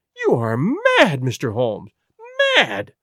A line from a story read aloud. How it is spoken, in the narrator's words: she cried at last